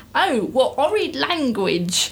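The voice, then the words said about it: Put-on accent. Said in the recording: “I have to do this in the right accent”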